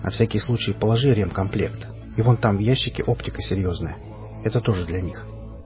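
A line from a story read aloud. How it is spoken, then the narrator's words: Quiet remark. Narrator (Russian): негромко заметил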